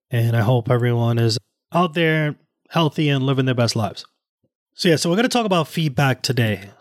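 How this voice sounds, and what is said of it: Slightly weird, unwell-sounding voice. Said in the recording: “my voice sounds a little weird ... I am not feeling too well”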